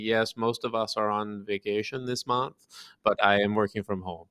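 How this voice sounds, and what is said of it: Poor put-on Danish accent. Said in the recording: “Is that your Danish accent? ... it's not good ... I do voices badly, and they're all the same.”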